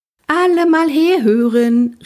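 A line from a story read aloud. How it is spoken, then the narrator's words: Calling across the bus. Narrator (German): rief sie durch den Bus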